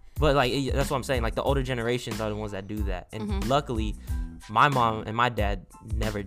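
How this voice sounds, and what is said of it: Speaker's own noticeable accent. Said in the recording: “your accent, dude, ... it comes out. I love it.”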